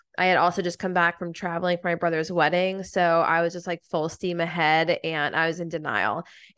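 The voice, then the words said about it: Sick-sounding voice. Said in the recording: “I don't know if you can hear it in my voice. I have been sick for the past week and a half.”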